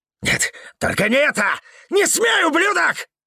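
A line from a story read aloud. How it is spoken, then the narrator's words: Desperate yell into radio. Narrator (Russian): Туз отчаянно заорав в нее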